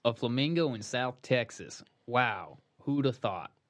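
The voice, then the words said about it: Put-on Southern accent. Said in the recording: “I love the accent ... Sound like he would have been from New Orleans.”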